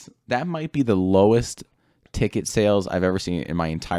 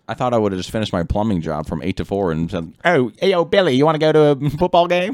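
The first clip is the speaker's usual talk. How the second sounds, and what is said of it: Put-on accent. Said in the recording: “I wasn't ready for the accent.”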